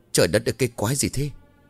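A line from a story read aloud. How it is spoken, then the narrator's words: Breathless frightened mutter. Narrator (Vietnamese): Quá kinh dị, ông Lam thở từng hơi nặng nhọc, ông lẩm bẩm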